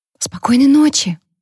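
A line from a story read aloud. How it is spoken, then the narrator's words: Whisper. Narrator (Russian): прошептала в темноте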